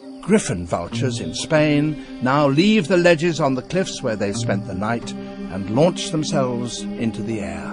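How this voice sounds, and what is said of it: Lovely British accent. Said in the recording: “the lovely British accent of”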